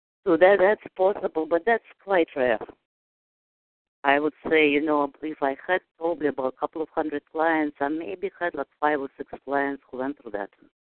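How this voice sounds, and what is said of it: Speaks with a non-native accent. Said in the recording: “I absolutely love your voice and your accent ... You have a wonderful voice and a wonderful accent”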